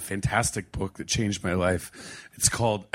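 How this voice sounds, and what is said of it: Strained, voice nearly gone, sounds teary. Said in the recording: “It sounds like I'm about, about to cry, but I just lost my voice.”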